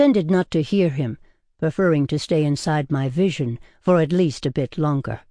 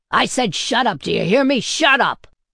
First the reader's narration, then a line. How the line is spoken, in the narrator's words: It was a male voice that shouted these words, booming menacingly close